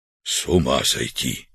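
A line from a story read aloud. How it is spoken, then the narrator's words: Whisper. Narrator (Russian): прошептал Артур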